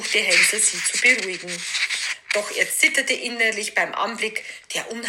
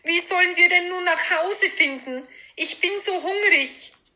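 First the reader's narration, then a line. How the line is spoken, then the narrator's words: Despondent call. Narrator (German): rief Gretel mutlos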